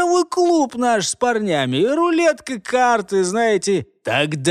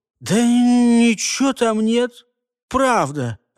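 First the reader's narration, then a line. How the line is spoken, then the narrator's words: Vexed youthful mumble. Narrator (Russian): в очередной раз промямлил раздосадованный паренек, у которого только-только стала пробиваться нормальная борода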